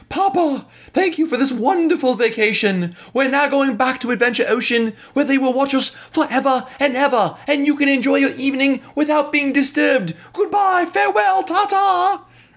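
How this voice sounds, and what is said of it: Put-on British accent. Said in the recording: “why do my kids have British accents?”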